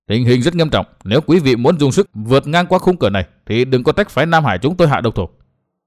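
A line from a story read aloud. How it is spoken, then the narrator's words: Stern voice. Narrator (Vietnamese): Vương Quán Trung nghiêm giọng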